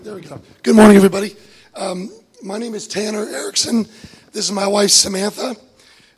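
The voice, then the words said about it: Slightly hoarse voice. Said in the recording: “Excuse my voice. It's a little hoarse.”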